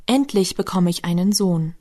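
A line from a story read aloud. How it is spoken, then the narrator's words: Excited joyful cry. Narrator (German): aufgeregt vor Freude rief wieder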